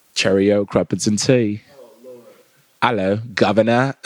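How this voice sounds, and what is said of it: Put-on British accent. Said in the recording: “he wants to be from the UK ... boring ass, sad ass accent”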